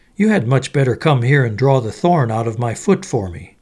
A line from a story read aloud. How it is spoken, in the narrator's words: the fox cried